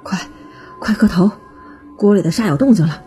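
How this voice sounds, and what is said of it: Quiet, hushed urgent speech. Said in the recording (Chinese): “徒弟皱着眉头对黄达小声的说。”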